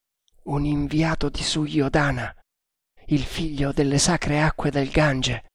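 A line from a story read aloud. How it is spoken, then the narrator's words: Answered in undertone. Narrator (Italian): rispose Tremal Naik sottovoce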